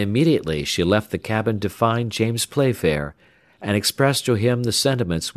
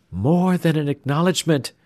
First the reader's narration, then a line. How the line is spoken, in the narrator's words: cried the young girl